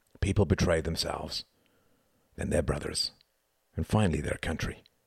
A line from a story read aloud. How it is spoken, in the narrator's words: murmured Gunther